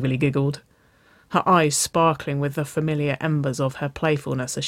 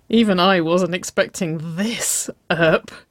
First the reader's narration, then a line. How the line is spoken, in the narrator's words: Nicole laughed